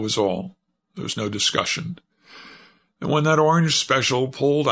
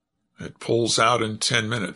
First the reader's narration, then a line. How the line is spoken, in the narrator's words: said he